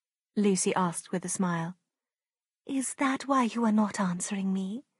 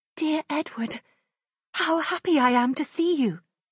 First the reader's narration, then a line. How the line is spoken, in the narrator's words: she cried, smiling